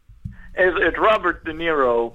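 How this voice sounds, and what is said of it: Imitates another person's voice. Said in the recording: “Not without a voice. Do the voice.”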